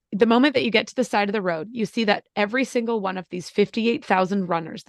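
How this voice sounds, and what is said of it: Choked-up, emotional reading voice. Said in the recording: “Oh my God, I'm going to get choked up as I read this. Whoa.”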